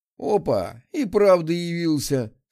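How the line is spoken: Laughing. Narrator (Russian): смеялся Михаил

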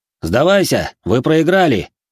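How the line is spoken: Joyless shout. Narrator (Russian): крикнул не особенно весело один из охотников

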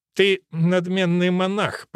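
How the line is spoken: Muttered from mouth corner. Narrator (Russian): процедил он, как всегда теперь, левой стороной рта

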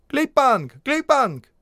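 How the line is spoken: Shouted. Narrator (Russian): крикнет, как они

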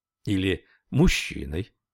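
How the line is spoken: Old man laughing. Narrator (Russian): старик засмеялся

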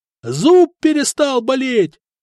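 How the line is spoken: Yelling. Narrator (Russian): заорал еще один

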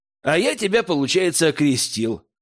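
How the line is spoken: Snort, young man. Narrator (Russian): хмыкнул парень

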